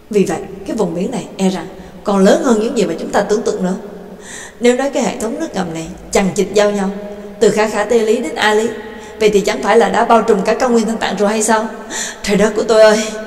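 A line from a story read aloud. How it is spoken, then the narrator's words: Stammering. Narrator (Vietnamese): Trương Lập thì lắp bắp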